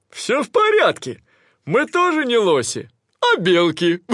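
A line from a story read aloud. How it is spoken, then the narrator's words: Laughing. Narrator (Russian): Братья лоси засмеялись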